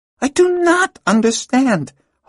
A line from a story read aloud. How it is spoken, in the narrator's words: Hala cried to Peller in exasperation